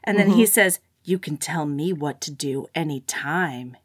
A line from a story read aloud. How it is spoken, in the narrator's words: he said, his voice low and intimate in the cocoon of the car